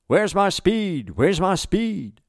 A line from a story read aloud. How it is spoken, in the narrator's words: Which is an odd thing to shout